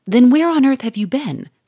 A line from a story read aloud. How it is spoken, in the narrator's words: cried Monsieur Fourmeret